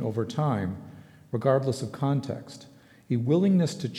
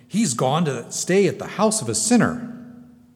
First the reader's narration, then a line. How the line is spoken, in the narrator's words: they began to grumble, saying